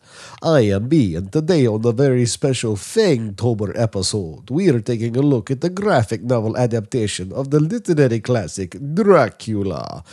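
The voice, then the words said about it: Put-on accent. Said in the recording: “now we are done with the accent. ... I was going to try to do that for the whole episode, but it's not happening.”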